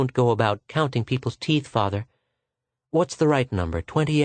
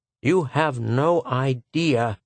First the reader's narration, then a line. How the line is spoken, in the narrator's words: he said